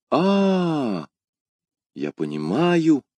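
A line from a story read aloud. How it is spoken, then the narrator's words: Exclaimed. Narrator (Russian): воскликнул Д'Артаньян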